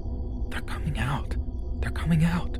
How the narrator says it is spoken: hissed

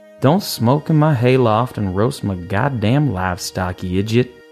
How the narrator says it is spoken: sighed

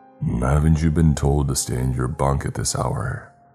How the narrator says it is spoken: His tone was predatory and overwhelmingly creepy, but his demeanor was otherwise friendly

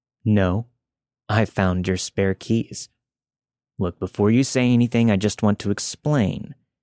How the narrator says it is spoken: said calmly

